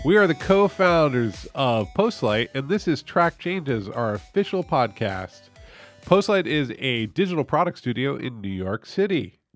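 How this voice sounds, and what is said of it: Nasal, congested voice from a cold. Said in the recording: “I have a cold. ... I can tell. ... my voice is really nasally”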